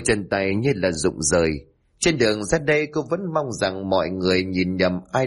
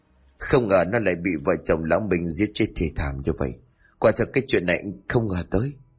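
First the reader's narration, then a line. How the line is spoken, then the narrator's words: Sad reply. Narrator (Vietnamese): Luận buồn bã đáp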